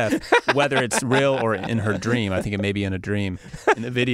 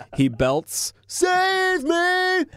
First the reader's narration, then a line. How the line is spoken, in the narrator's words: He yells at you